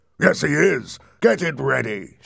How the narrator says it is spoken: shouted Mr

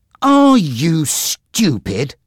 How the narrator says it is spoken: said angrily

